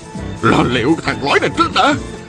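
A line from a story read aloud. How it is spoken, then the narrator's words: Furious loud shout. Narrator (Vietnamese): Cặp mắt Ôn Phương Đạt như tóe lửa ra, hét to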